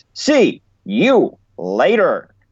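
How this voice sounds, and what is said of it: Bob Carpenter impression, catchphrase. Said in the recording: “my Bob Carpenter impression”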